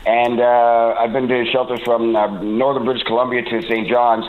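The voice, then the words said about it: Non-Newfoundland accent. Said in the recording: “I'm not obviously from Newfoundland, you can tell by the accent”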